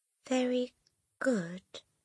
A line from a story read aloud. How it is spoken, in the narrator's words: the boy mumbled